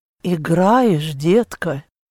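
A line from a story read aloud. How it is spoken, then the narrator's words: Whisper. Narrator (Russian): прошептали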